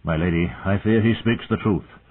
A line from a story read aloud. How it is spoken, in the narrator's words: Sir Roderick said wearily